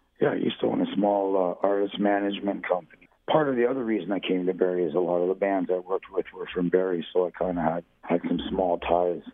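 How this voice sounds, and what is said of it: Voice affected by a cold. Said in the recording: “apologize for my voice. I've been fighting the same cold for over a week.”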